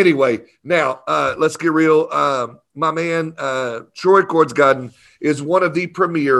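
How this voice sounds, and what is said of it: Usual voice. Nothing is said of it.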